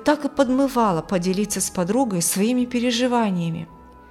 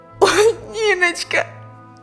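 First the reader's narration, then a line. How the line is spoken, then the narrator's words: Sobbing harder. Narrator (Russian): Еще сильнее зарыдала Алевтина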